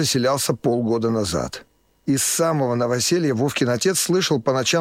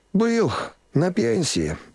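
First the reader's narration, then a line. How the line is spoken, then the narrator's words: Sighing. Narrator (Russian): вздохнул сосед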